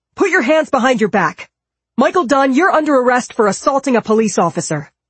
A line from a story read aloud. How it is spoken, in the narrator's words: shouted